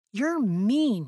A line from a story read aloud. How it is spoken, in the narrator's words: yelled Faith